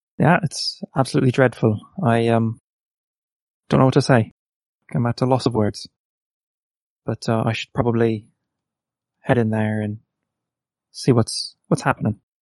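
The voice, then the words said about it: Irish accent. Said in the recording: “your accent, I could tell you're Irish”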